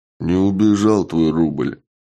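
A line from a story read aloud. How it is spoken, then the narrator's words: Gloomy reply. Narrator (Russian): мрачно ответил Чак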